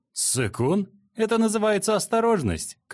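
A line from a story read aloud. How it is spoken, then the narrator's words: Shouted. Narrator (Russian): крикнул Жэньянь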